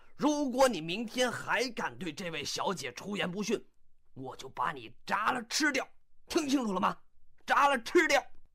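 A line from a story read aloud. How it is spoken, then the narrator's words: Roaring. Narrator (Chinese): 商店老板对这个鹦鹉吼道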